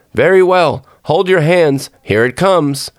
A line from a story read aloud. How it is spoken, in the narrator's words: Tom called out as loud as he could